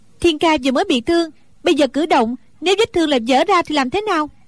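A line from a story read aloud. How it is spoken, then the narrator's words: Angry. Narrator (Vietnamese): Đinh Đan tức giận nói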